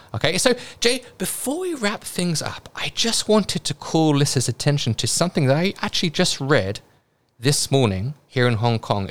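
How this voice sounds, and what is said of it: British accent. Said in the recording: “Took a while to get used to his British accent ... accustomed to my British accent”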